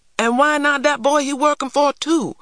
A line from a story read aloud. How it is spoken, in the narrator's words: yelled Thurston